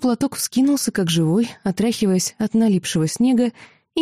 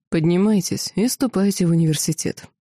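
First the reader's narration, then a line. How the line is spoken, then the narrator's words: Cold command. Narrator (Russian): холодно приказал дракон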